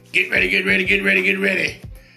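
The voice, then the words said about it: Imitates another person's voice. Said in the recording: “In my TD Jakes voice”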